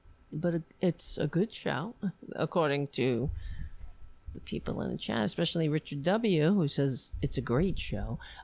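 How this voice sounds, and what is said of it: Slightly hoarse, strained voice. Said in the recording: “I'm losing my voice a little bit.”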